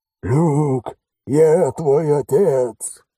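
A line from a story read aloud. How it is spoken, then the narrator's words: Hoarse yelling. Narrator (Russian): хриплым голосом заорал Алекс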